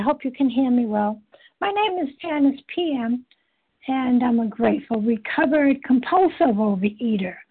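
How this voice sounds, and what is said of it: Hoarse voice. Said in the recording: “I am so hoarse”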